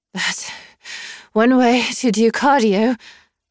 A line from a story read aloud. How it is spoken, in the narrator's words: I panted